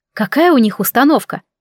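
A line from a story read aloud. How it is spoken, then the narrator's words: Gloomy inquiry. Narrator (Russian): мрачно поинтересовалась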